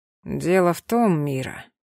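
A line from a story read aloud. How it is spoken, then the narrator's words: Slow speech. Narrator (Russian): медленно сказал он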